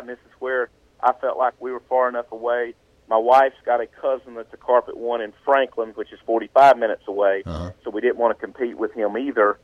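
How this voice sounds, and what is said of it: Southern mountain accent. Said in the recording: “as you can tell by the way I talk on this interview, I am a mountain guy ... My southern accent, I'm a mountain guy ... the accent is what I call character”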